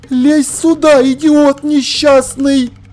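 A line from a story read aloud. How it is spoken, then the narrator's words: Furious shout. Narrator (Russian): Разъяренный калаш к Ваймсу прокричал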